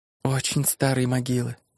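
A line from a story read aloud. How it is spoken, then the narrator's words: Finally whispered. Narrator (Russian): наконец прошептала она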